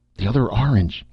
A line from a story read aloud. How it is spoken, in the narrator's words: he gasped